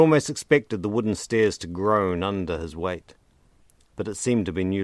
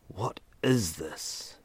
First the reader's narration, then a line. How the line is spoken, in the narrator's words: Ethan whispered, his voice betraying the fear sprouting in the pit of his stomach